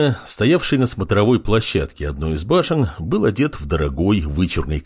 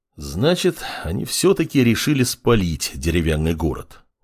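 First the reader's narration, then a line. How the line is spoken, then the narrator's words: Sighing. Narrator (Russian): вздохнул он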